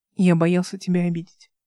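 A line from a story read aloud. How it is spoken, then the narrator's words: Plain. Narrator (Russian): ответил он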